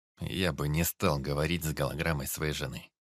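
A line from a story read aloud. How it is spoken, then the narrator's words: Grim old man. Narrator (Russian): мрачно ответил дед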